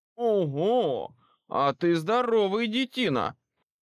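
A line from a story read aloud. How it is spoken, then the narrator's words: Loud shout. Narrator (Russian): шумно выкрикнул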